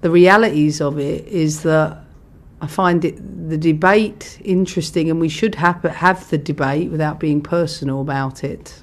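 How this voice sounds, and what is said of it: Lovely accent, calm delivery. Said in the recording (Dutch): “ik vind een geweldig accent ... zo rustig, mooi formulerend”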